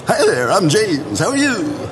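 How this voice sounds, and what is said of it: Polished radio announcer voice. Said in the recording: “that Troy Bakery kind of... Like a radio voice.”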